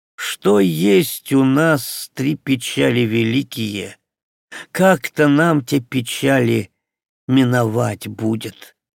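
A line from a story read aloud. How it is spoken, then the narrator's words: In an angry voice. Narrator (Russian): Филька сердитым голосом заводит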